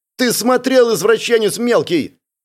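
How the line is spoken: Shout from behind. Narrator (Russian): крикнула спрятавшаяся за моей спиной Эля

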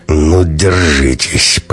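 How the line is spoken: Through clenched teeth. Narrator (Russian): процедил он

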